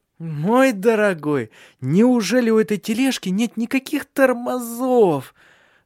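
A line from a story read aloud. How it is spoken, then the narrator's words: Moaning. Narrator (Russian): Застонала она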